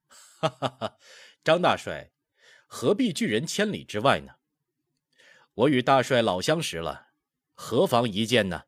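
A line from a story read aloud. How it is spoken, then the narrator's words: Laughing, through a door. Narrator (Chinese): 沙罗奔隔门笑道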